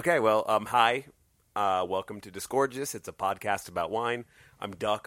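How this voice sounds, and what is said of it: Hoarse, strained voice. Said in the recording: “I lost my voice because I was shouting today.”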